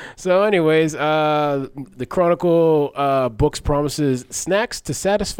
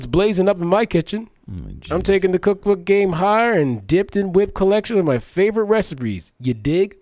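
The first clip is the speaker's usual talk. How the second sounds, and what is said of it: Imitates a laid-back rapper's voice. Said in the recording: “That was my Snoop Dogg impression.”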